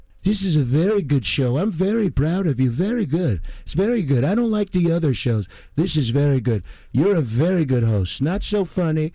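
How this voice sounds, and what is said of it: Imitates another person's voice. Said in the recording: “I love impersonating. ... I can switch. And my Trump, man.”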